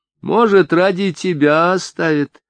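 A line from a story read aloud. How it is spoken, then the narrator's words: Mocking woman. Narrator (Russian): сказала одна из колхозниц насмешливо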